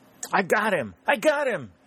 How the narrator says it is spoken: cried

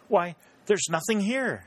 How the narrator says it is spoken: she exclaimed

